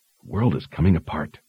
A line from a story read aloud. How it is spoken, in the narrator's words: she whispered to herself